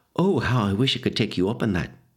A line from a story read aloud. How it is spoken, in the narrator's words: she sighed